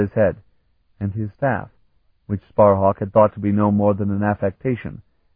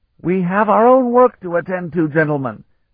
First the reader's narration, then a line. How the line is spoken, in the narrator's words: Vanyan roared his reminder